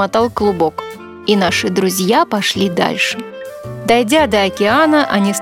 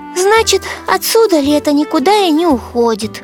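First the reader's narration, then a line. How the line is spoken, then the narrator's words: Sigh. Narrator (Russian): вздохнул Рыжик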